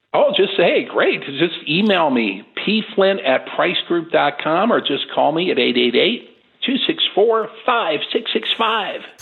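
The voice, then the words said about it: Radio DJ voice. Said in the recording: “DJ voice”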